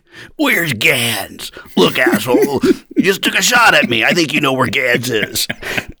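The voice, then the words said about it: Imitates another person's voice. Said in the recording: “my voice is more, it's more of this vein ... Is that your Nick Nolte, like, have a coffee?”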